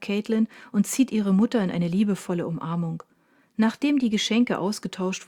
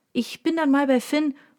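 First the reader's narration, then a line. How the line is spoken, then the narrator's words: Calling into room. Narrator (German): ruft in den Raum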